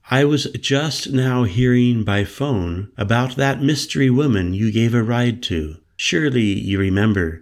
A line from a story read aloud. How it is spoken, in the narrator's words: said smoothly